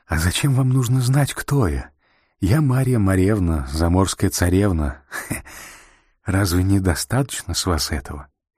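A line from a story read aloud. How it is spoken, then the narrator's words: Laughing while speaking. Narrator (Russian): она смеялась и говорила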